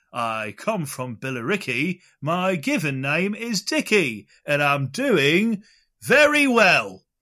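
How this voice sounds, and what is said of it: Fake Essex accent. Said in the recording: “The fake Essex accent”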